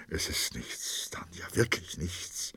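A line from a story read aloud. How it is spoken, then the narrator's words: Trembling whisper. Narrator (German): flüsterte bebend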